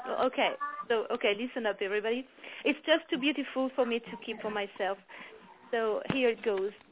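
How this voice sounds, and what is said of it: French accent. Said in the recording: “I hope that everybody will understand my accent ... anyone with a French accent just melts me”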